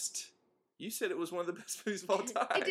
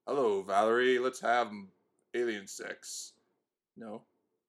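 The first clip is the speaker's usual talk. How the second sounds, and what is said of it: Radio voice imitating another person. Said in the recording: “I have a radio voice ... I can't really do an impression of him ... That wasn't that bad ... I'm just trying to do the radio voice”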